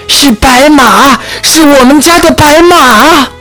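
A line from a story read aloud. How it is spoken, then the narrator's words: Grandmother's sudden shout. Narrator (Chinese): 奶奶忽然大叫起来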